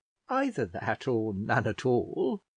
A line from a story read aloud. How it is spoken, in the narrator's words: said, laughing